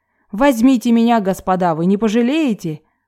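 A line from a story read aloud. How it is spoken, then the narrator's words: Eager exclamation. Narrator (Russian): с готовностью воскликнул Д'Артаньян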